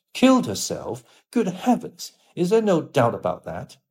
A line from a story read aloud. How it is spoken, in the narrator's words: cried Hallward, with an expression of horror